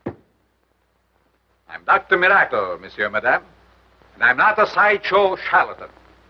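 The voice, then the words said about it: Unusual, unidentifiable foreign accent. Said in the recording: “his accent? I wonder where he comes from. I never heard an accent like that”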